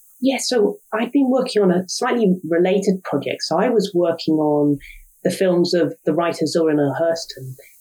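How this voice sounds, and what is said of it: British accent. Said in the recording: “as people might be able to tell from your accent, you are a scholar and an educator and an author from the UK”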